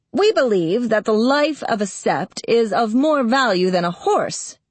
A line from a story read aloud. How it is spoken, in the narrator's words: said Foran firmly